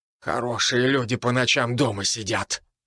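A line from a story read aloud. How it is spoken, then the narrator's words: Priest grumbling. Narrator (Russian): проворчал священник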